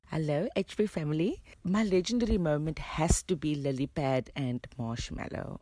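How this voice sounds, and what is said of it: South African accent. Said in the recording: “who you'll know from her accent is from South Africa”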